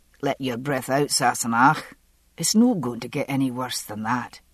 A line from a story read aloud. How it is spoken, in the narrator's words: After a moment, he said, rather gruffly